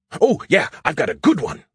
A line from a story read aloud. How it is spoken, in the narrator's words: he shouted excitedly